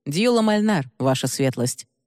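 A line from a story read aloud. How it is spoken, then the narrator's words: Calm reply. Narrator (Russian): спокойно ответил узник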